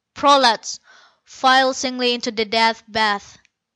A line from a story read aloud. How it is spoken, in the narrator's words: Atuna raised his voice only slightly with the command